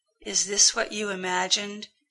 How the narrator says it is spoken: he whispered into Rodney's ear

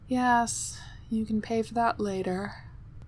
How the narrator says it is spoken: Nicola said sleepily

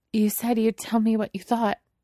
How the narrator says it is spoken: she says, a little desperately

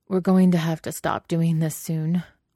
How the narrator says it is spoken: Wei Wuxian says, biting down on his bottom lip so he won't groan at how good it feels

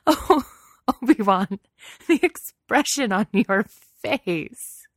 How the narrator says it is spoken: She gasped around bursts of laughter

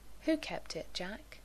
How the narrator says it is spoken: Yanto inquired gently

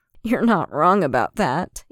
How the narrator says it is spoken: Anakin laughed

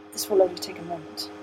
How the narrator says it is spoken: the master murmured

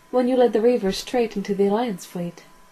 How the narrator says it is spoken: said McKinney smoothly

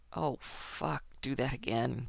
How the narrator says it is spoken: Kowalski groans

